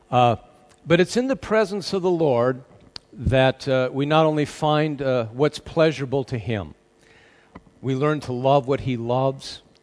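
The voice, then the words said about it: American accent. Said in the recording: “you can tell by my accent, I want to throw America in there as well”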